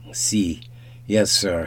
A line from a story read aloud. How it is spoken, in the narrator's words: he stammered